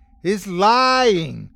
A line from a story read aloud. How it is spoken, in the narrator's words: I shouted